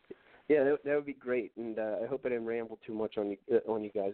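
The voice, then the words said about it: Strong Philadelphia-area accent. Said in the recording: “you're from the Philly area, so you can put up with my crazy accent ... they're always giving me crap about the way I string together my words, and, you know, I stutter a little bit”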